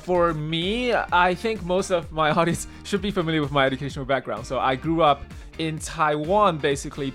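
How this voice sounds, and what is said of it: American accent, slight Singaporean tinge. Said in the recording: “I changed my accent to the current one, the American accent ... I still have a little bit of like Singaporean accent mixed into my American accent”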